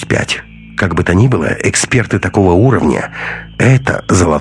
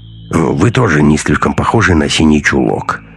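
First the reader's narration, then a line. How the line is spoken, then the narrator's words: Muttering. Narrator (Russian): буркнул Андрей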